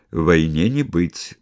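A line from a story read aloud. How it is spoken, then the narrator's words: Gloomy, not very sure. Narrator (Russian): сказал фараон мрачно, но не очень уверенно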